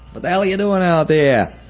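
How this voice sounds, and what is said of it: Put-on New York accent. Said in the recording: “in his New York accent”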